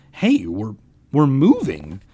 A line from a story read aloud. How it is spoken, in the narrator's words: Ben cried happily